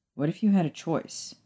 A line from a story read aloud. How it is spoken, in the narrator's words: Sirius asked